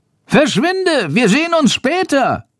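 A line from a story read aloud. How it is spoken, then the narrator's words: Called out. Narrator (German): ruft Chandor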